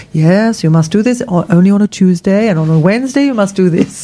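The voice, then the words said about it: Unconvincing put-on Spanish accent. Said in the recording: “She's Russian, was she? ... my Spanish accent ... That wasn't Spanish. No. Just tell me, that was not remotely Spanish.”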